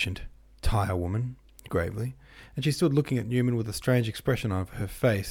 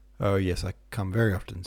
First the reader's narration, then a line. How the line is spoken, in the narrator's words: said Newman, laughing